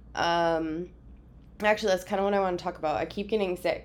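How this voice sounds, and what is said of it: Weird voice from a cold. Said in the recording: “I'm currently still have a cold. I'm sure you can tell by my weird voice.”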